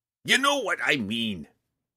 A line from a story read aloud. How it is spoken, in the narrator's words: growled